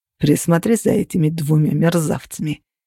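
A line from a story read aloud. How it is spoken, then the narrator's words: Grumbled. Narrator (Russian): проворчал Костя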